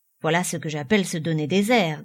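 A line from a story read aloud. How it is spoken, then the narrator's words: Grumbled. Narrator (French): grommela-t-il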